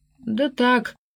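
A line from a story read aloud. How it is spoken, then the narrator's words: Mumbled. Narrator (Russian): промямлил Глинкин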